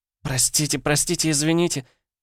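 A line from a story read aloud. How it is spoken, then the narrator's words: Whimpering. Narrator (Russian): заскулила Жужи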